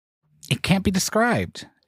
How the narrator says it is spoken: Eddie said, almost sharply

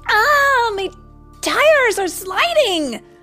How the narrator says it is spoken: she cried

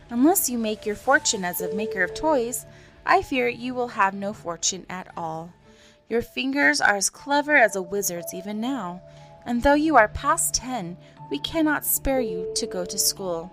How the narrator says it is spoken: his mother would answer with a sigh

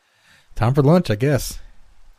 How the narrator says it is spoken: said cheerfully

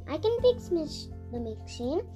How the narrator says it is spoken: Nanny said

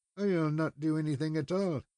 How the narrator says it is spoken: he muttered

